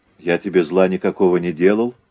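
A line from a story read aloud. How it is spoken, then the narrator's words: Calm explanation. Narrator (Russian): объяснил спокойно Загоскин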